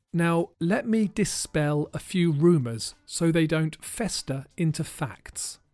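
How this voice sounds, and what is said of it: American accent. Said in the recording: “the difference between my accent and Robin Williams' American accent”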